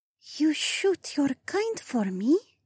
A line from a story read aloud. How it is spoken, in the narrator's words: the alien whispered